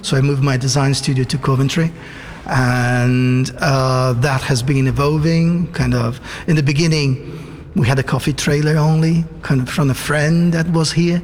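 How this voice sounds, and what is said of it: Italian-Brazilian accent. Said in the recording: “So your accent, so you're Italian, but you're Italian and Brazilian, are you?”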